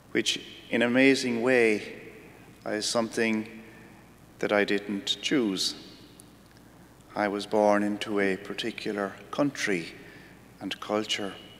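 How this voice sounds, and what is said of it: Irish accent. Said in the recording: “"You're from Ireland, aren't you?" ... They tell me I'm from Ireland because of my accent”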